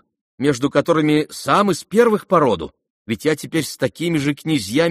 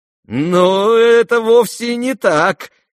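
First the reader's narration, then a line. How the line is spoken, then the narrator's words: Sarcastic laugh. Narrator (Russian): язвительно рассмеялся Иван Петрович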